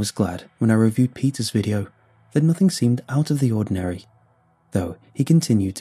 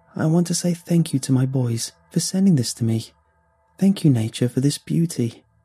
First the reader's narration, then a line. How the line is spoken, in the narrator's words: said Clara calmly